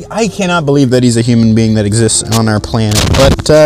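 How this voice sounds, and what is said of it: Usual voice. Nothing is said of it.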